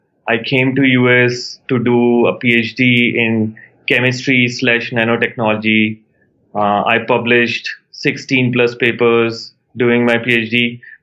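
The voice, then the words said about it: Indian English accent. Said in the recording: “Where's the accent from? ... India. I grew up in India.”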